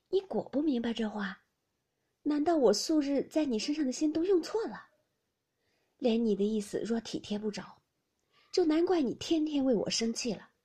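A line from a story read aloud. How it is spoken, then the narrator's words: Sighing question. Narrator (Chinese): 宝玉叹了一口气，问道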